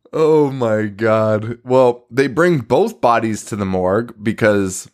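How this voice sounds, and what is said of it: Usual voice. Nothing is said of it.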